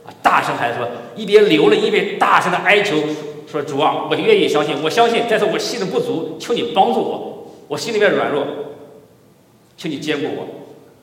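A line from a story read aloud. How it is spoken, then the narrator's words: Father crying out. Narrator (Chinese): 那个孩子的父亲立时喊着说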